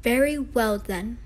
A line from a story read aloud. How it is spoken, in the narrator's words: said Pinocchio